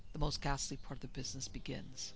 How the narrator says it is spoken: whispered the priest

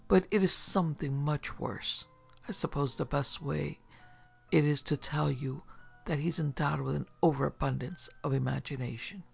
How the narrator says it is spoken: sighed

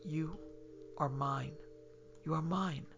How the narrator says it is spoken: whispering in his ear

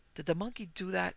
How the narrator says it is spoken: Petey whispered

